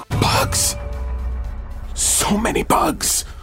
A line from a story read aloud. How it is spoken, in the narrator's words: She stage whispered